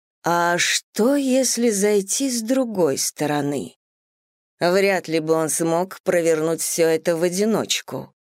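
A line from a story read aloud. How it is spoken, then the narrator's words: Slow, thoughtful speech. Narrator (Russian): медленно произнесла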